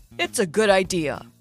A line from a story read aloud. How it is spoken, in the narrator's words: he said in his usual mentor voice